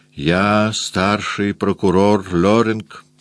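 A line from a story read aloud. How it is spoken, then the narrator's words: Slow. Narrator (Russian): сказал он медленно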